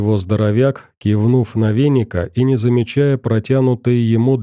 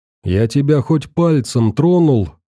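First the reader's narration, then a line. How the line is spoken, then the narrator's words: Shouting back in same tone. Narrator (Russian): в тон ему выкрикнул веник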